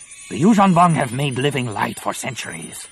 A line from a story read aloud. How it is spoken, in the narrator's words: Nomanor snapped